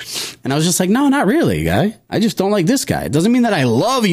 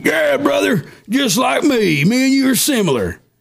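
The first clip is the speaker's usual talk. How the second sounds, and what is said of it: Imitates a Southern American man. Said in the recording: “all Trump supporters aren't Southerners. That's my impression of that specific guy.”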